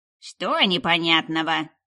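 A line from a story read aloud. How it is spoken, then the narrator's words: Stern explaining. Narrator (Russian): строго разжевала Дарья-старшая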